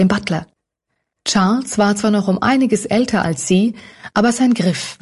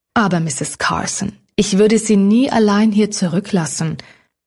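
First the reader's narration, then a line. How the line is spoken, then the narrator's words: Firm voice. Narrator (German): erklärte der Butler mit fester Stimme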